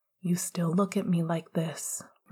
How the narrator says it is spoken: Remus said quietly, dreamily

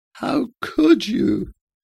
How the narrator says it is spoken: Diana's voice was rasping and cracked

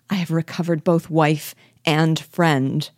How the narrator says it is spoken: cried

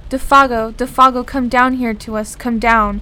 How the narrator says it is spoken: lifting his face to the sky, he cried aloud

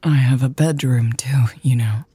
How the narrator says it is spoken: Lex said in a husky voice

